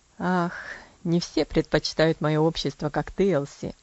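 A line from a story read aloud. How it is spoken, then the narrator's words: Laughing. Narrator (Russian): засмеялся он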